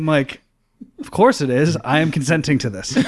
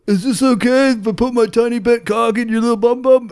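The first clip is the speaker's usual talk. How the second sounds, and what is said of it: Imitates another person's voice. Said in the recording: “I can do a impersonation of Eric”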